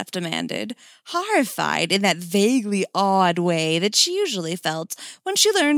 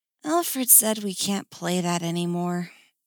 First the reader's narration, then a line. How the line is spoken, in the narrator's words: Cass said wistfully